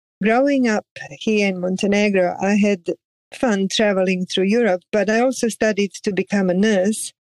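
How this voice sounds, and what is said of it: Mixed European accent. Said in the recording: “I have a very mixed European accent.”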